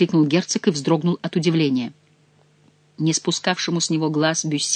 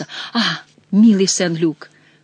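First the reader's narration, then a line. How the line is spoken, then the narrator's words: Exclaiming. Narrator (Russian): воскликнул герцог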